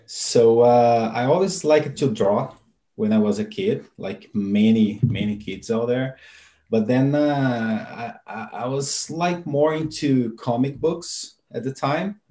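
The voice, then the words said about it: Brazilian accent. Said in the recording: “you've got an accent ... I'm Brazilian originally.”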